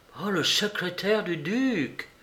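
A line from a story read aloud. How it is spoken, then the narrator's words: Exclaimed. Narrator (French): s'écria Holmes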